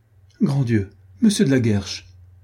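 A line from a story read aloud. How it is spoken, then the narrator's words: Cry out. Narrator (French): s'écria mademoiselle de Souvigny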